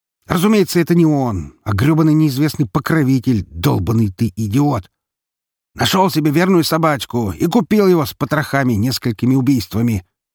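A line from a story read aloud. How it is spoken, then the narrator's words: Shouting. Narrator (Russian): снова закричал шеф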